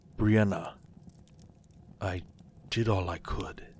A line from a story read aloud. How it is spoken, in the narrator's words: said softly